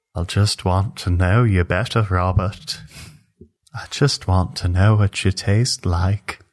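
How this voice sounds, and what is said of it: Creepy put-on character voice. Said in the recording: “almost sounds like salad fingers ... That's just a creepy voice that I use.”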